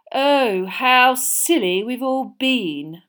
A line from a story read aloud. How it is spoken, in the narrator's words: Malfoy sneered